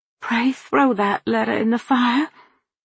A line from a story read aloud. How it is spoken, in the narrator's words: Red-faced and miserable in my guilt, pleaded